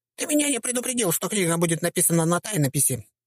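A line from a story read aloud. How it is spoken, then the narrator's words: Squeaky. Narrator (Russian): пропищал он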